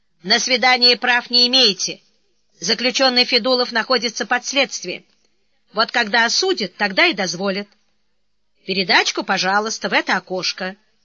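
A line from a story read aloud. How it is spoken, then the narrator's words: Stern. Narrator (Russian): строго сказал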